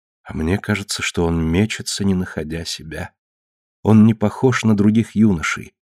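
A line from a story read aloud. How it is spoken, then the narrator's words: Wife, quiet. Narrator (Russian): тихо сказала жена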